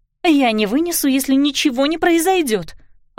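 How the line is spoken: Exclaiming. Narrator (Russian): воскликнула Клариса

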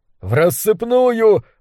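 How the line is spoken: Shout. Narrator (Russian): выкрикнул кто-то

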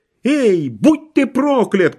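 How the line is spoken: Shout. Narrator (Russian): кричала она

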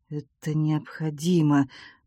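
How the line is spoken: Mutter under breath. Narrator (Russian): пробормотал он себе под нос

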